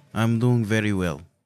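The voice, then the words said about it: Put-on Russian-sounding accent. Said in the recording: “this is a Russian accent, but this is the best I could find... You could be a Russian-Irish person.”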